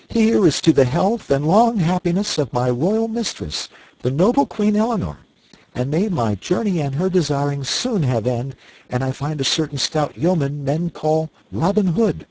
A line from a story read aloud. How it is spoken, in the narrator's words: Young Partington cried